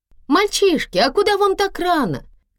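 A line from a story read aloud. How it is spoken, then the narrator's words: Awkward shout. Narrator (Russian): крикнула женщина, высунувшись из окна с застывшей неудобной улыбкой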